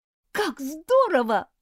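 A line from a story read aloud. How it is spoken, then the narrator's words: Excited exclamation. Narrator (Russian): воскликнула Дженни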